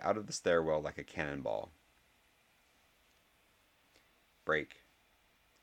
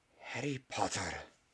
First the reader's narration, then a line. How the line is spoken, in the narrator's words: breathed Professor McGonagall